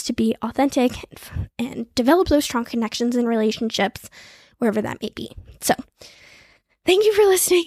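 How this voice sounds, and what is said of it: Out of breath, winded speech. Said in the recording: “I'm out of breath. ... I need to get water. Just talked for like 24 minutes straight”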